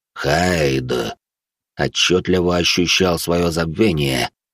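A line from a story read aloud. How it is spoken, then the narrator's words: Skull wheezing hoarsely. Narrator (Russian): хрипел череп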